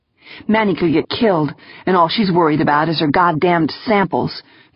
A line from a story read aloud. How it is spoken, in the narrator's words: Cardenas grumbled to herself